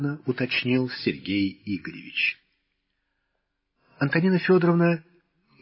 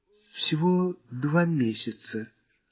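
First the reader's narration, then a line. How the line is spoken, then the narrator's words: Guilty tone. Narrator (Russian): виноватым тоном пояснила хозяйка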